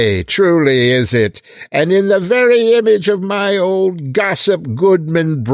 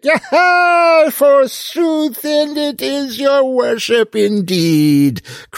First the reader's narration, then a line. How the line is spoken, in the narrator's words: cried the good dame